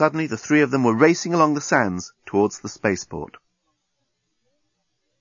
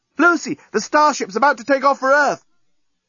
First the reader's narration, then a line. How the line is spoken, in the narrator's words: the journalist, shouting from the breakwater